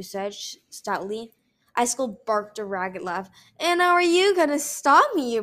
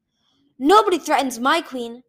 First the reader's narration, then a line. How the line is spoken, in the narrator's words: King Gajoo shouted